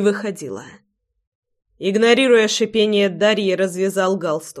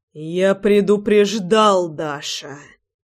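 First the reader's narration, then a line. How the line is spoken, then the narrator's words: Through gritted teeth. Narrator (Russian): Процедил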